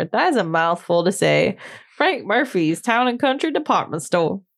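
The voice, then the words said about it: Southern-sounding American accent. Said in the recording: “I like the accent. You look at the West, Southern accent. ... I have a really weird accent”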